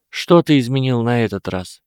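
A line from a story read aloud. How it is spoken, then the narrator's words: Slightly tired question. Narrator (Russian): немного устало спросила Гермиона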